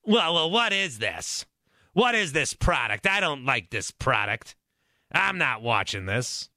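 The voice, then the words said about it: Mock complaining fan voice. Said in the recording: “My impression is an aggregate of all the people that have ever complained about the Pro Bowl.”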